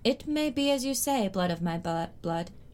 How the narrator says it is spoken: Dany replied gravely

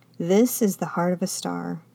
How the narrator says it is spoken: he said quietly, his voice low now

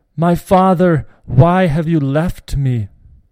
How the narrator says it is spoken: Joshua cried out

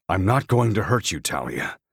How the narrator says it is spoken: the man grunts

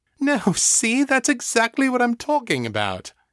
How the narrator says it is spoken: Eva said, laughing

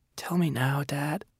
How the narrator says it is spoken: he said, whispering

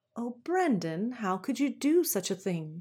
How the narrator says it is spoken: said his mother in a shocked voice

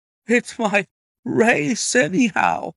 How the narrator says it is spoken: gasped the colonel

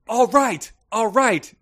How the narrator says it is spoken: CL yelled toward the window at the Belladonna statue

